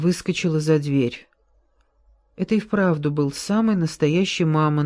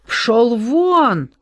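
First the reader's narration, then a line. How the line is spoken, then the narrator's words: Mother yelling. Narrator (Russian): завопила мама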